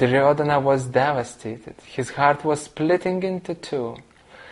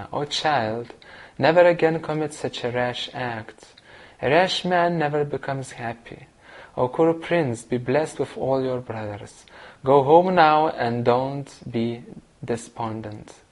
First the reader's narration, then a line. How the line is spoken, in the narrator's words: In an affectionate voice, the ever compassionate Yudhishthira said to Duryodhana